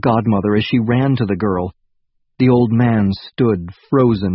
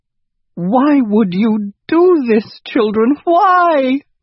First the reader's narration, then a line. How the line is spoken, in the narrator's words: wailed the old woman